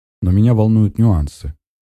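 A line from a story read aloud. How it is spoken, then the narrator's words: Calm speech. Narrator (Russian): говорю также спокойно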